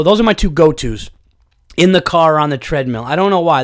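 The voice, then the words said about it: Voice recovering from a cold. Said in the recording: “If you could hear in my voice, I am getting better ... bad damn cold”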